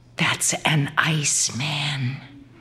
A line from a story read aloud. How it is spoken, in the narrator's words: one of my friends whispered